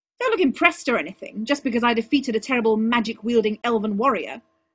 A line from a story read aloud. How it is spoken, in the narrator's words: Arthur snapped